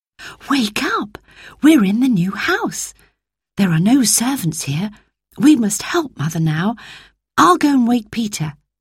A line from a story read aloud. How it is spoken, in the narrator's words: whispered Roberta